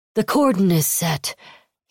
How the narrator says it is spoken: he said to Kyoshi in a pipe smoker's wheeze

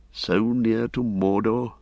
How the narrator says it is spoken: said Beregond quietly

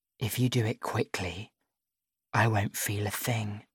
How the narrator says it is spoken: she whispers

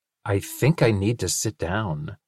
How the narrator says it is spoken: Linus said weakly

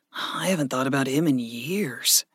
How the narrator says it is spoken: Gregory murmured

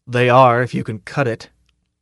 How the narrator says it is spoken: the fleet sergeant said grimly

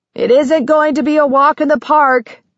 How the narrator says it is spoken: Ben yelled, trying to be heard over the raucous cries

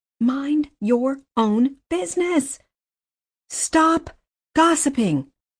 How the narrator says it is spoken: Madeline to shout at the street

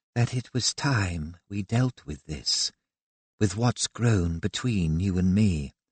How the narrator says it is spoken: she continued, her tone a conversational purr

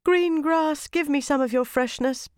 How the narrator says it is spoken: begged the wood nymph

